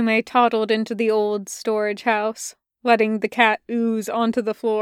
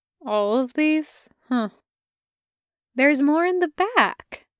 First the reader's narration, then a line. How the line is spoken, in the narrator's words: Taki said sweetly